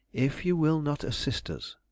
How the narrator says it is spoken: I went on calmly but determinedly

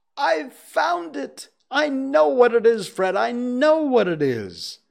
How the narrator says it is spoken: At last, the plump sister, falling into a similar state, cried out

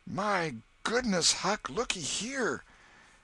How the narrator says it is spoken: Tom exclaimed

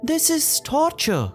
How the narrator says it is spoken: Pocahontas shouted

